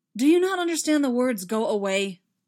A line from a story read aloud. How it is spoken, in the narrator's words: Anakin snapped